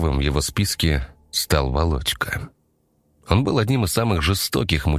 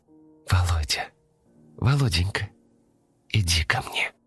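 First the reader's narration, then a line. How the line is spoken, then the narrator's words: Whispered by a mermaid. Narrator (Russian): шептала русалка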